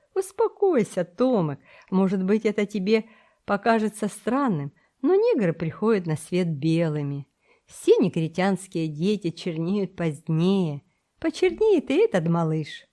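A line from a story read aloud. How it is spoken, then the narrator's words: Laughing reply. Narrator (Russian): Смуга расхохотался и ответил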